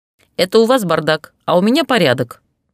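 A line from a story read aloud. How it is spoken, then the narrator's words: Barked. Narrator (Russian): рявкнул Машутин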